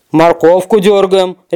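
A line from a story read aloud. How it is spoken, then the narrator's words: Bear barking roar. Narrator (Russian): рявкнул медведь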